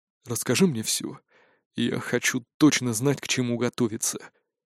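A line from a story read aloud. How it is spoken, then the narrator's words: Very quiet request. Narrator (Russian): очень тихо попросил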